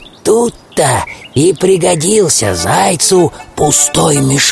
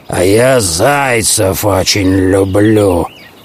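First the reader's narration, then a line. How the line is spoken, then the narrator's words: Growling wolf. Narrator (Russian): зарычал волк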